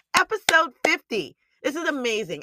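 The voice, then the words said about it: Excited, energetic voice. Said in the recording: “Can you hear the excitement in my voice?”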